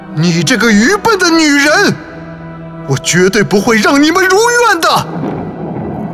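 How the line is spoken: Betrayed ghost's furious roar. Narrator (Chinese): 他觉得克里斯汀背叛了他，幽灵愤怒地吼叫着说

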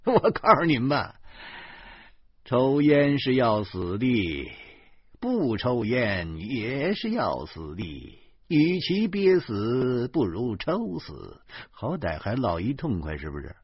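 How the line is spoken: Sardonic, dismissive. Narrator (Chinese): 严明翻着眼珠子说

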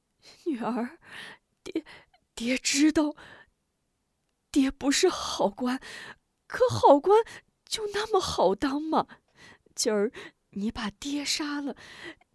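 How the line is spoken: Trembling voice. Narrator (Chinese): 贾怀颤声道

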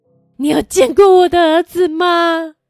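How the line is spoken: Desperate repeated shouting. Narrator (Chinese): 她 不停大喊

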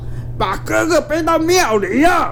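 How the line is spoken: Loud shout, big man. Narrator (Chinese): 那个黑大汉大声叫道

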